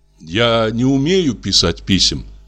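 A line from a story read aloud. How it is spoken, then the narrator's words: Plain. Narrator (Russian): сказал я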